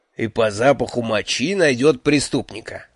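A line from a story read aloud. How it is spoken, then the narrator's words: Snorting. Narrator (Russian): фыркнул Джуфин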